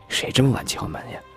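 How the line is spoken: Impatient grumble. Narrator (Chinese): 大女儿不耐烦的嘀咕一句

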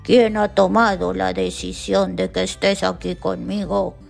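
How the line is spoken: Thundering voice. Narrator (Spanish): Respondió con una voz que tronó por toda la montaña

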